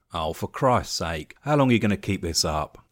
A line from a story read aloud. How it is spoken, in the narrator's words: Tom asked